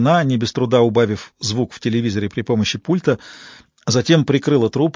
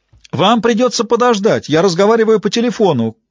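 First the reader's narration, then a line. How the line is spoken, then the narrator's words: Shout. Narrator (Russian): крикнула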